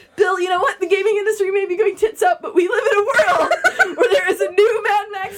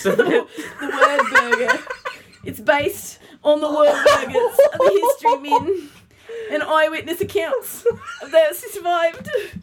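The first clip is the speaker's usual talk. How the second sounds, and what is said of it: Poor put-on Australian accent. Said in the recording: “my terrible Australian accent”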